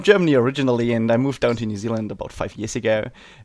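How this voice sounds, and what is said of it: German English accent with Kiwi flavor. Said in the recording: “that weird accent ... that interesting mix of German English with a Kiwi flavor”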